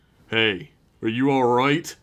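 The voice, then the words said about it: Deep male character voice. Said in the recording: “A deep voice broke the silence.”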